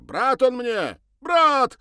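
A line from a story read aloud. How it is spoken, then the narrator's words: Shouting after someone. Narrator (Russian): крикнул ей вслед Сергей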